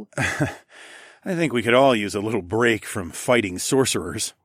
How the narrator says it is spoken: I chuckled

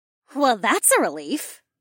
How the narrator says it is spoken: Polina chirped

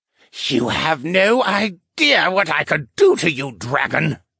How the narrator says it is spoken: the merman hissed

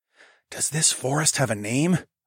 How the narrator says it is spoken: whispered

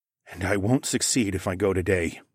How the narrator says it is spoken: I murmured

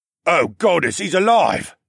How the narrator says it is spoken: Someone, Thass maybe, exclaimed

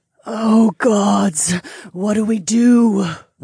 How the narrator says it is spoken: Rana moaned

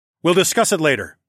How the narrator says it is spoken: I barked at him

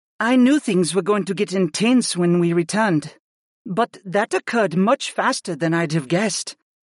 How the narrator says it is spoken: breathed

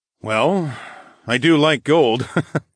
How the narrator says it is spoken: I chuckled

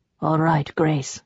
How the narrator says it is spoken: said quietly

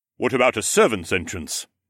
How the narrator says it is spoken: Mech asked

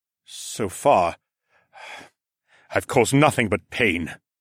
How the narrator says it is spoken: scoffed bitterly

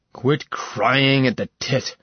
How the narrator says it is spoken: Savitar snarled

